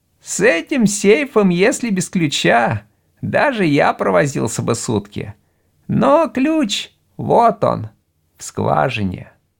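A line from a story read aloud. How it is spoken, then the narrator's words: Thin high voice. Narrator (Russian): тонким голосом произнес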